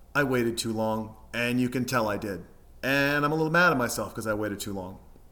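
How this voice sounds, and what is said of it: Emotional, choked-up voice. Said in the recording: “as you can tell, I'm getting a little emotional”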